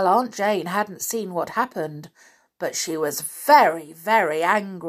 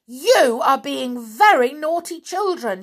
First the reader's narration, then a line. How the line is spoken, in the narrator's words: cried